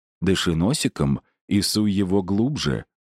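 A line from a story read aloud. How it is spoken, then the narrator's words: Tender whisper in ear. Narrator (Russian): заботливо прошептал ей Гарри на ушко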